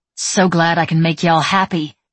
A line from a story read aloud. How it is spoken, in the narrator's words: snarled